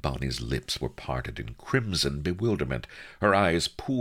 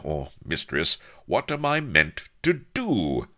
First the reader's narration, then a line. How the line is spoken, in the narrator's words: he cried fervently